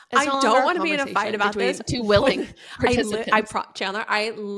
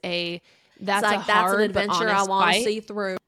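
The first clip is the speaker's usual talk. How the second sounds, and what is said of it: Imitates another person's voice. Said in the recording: “you're doing literally the worst impression of him of all time”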